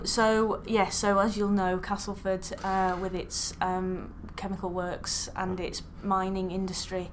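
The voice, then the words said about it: Northern English accent. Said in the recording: “I am a northern person, as you can probably tell. ... A lady with a northern accent.”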